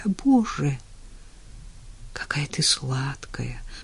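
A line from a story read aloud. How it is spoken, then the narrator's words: Whisper. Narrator (Russian): прошептал он тогда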